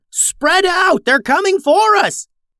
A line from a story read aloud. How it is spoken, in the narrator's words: Blackwell yelled